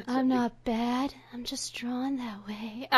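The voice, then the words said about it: Attempted breathy, sexy voice. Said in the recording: “I can't do a breathy, sexy voice. ... a perfect breathy, sexy voice”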